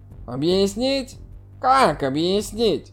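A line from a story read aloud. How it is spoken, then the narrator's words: Irritated question. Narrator (Russian): раздраженно спросил Сяо Кан Юнь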